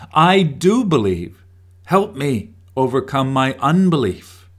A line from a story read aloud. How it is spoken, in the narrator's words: Immediately the boy's father exclaimed